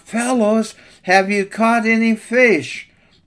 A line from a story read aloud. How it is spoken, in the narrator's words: He called out